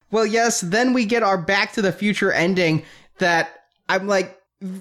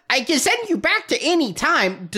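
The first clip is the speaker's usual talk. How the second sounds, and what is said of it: Imitates another person's voice. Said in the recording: “Your Billy Barty impression is spot on. ... he's a pretty easy impersonation.”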